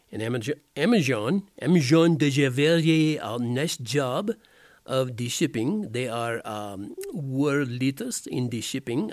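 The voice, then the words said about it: Put-on accent. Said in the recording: “I guess I can quit that accent now.”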